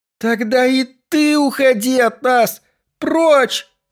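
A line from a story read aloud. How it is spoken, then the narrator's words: Crying shout. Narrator (Russian): прокричала, плача в ответ Сюзанна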